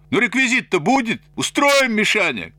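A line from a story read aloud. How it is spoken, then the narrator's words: Shouting from below. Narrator (Russian): крикнул снизу Свиридов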